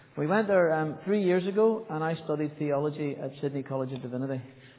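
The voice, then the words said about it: Northern Irish accent. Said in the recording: “the accent definitely isn't a Sydney accent ... if you come from Northern Ireland”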